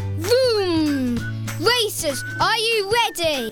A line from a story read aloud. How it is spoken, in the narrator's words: boomed Mr